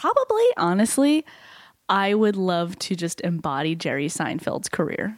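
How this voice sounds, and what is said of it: Usual voice. Nothing is said of it.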